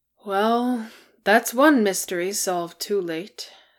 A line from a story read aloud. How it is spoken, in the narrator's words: said Gloin sadly